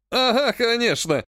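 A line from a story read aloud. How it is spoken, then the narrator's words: Loud laughter. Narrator (Russian): расхохотался зяблик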